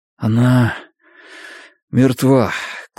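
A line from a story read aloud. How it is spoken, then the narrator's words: Sigh. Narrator (Russian): Клай вздохнул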